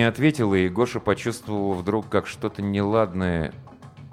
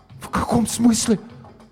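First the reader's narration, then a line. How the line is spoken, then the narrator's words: Incoherent, stunned whisper. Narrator (Russian): Несвязно шептал Гоша, ошарашенно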